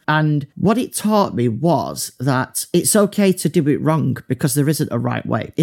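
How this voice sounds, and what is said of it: Broad northern English accent. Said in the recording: “my really broad northern accent”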